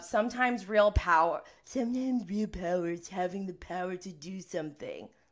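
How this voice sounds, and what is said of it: Imitates another person's voice. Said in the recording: “that's my Tom Sandoval impression, I guess. I gotta work on it.”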